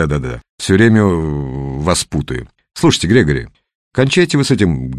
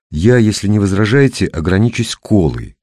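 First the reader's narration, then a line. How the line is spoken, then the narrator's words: Plain. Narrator (Russian): сказал Грегори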